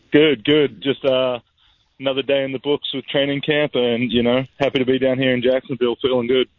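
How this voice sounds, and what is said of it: Australian accent. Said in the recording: “really hails from Australia ... does he have an accent or not?”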